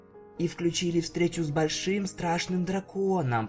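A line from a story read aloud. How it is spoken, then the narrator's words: Frightened shuddering whisper. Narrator (Russian): прошептала Флаттершай, содрогаясь от одной только мысли об этом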